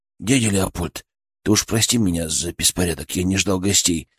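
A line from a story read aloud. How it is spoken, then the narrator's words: Muttering. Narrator (Russian): пробормотал он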